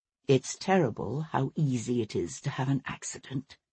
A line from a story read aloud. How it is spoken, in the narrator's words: said Sebastian softly